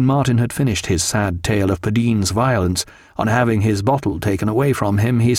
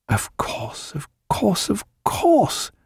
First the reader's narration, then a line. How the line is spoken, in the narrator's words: murmured Stephen